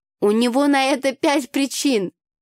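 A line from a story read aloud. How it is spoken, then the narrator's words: Laughing woman. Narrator (Russian): рассмеялась подруга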